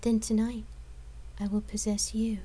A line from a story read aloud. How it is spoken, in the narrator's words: she replied in a seductive tone